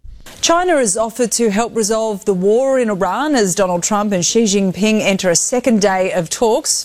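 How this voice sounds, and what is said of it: Australian accent. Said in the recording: “I do like that Australian accent.”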